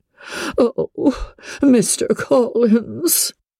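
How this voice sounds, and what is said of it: Doleful, mournful voice. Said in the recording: “In a doleful voice”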